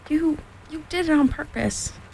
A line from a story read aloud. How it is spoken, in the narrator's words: sputtered Piglet as soon as he could speak again